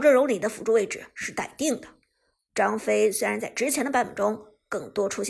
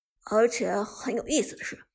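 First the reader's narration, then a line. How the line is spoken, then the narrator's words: Amazed exclamation. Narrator (Chinese): 芊芊也惊叹道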